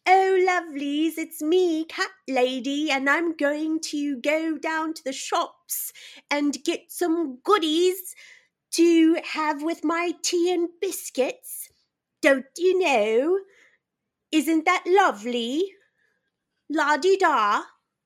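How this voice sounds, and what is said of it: Cat lady character voice. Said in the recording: “your best cat lady impersonation”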